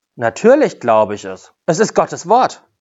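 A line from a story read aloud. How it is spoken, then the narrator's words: Calm woman's answer. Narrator (German): Die Frau antwortete ruhig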